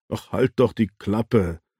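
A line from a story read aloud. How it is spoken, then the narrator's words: Laughing. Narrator (German): lachte Kero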